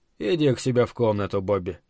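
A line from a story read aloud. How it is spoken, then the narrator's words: Quiet. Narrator (Russian): негромко сказал Тед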